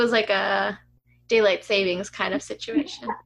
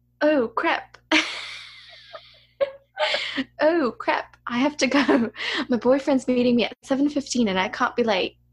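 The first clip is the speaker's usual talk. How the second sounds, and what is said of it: Put-on British accent. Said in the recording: “I don't know how to do this in a British accent.”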